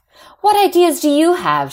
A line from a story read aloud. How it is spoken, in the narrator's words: snaps